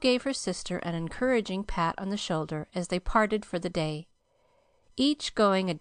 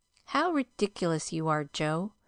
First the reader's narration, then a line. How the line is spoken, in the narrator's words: Meg laughed at the nonsense